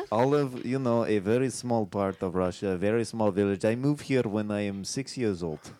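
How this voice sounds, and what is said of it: Very thick Russian accent. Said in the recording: “you have a very thick accent”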